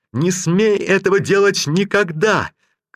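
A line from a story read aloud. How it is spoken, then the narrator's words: Shouted. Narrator (Russian): крикнул он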